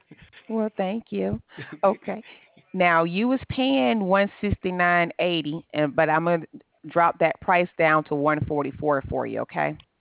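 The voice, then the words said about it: Southern US accent, Alabama. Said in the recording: “What part of the South are you from? ... I'm from Alabama. ... I haven't heard the accent in a while. It's very pleasant.”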